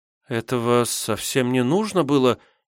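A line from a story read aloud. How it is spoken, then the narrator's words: Uncertain. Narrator (Russian): неуверенно произнесла девушка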